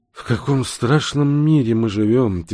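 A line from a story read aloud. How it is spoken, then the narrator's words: Heavy-sighing weary speech. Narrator (Russian): тяжело вздохнув, произнес профессор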